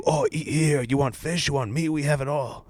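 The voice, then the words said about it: Put-on accent imitating street vendors. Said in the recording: “Excuse my accent.”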